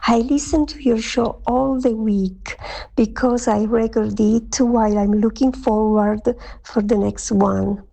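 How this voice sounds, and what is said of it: Pleasant foreign-accented English voice. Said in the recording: “your accent is wonderful and your voice is delicious”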